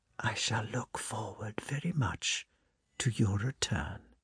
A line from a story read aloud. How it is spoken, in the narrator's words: she added in a whisper